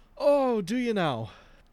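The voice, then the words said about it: Irish accent. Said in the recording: “Was that an Irish accent?”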